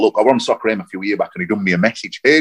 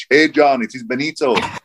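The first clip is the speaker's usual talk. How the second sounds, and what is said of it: Terrible put-on Italian accent. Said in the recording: “Terrible Italian accent... I apologise for my terrible Italian accent.”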